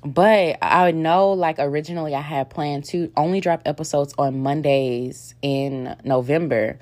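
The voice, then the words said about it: Raspy voice. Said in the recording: “my voice is a bit raspy this morning”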